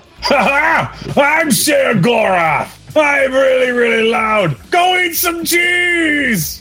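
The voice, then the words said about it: Loud, yelled character impression. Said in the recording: “doing a bad Shea Gorath impression ... stops yelling about cheese”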